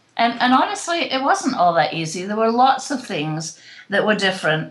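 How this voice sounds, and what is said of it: British accent. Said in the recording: “a British living in another country ... I haven't lost my accent”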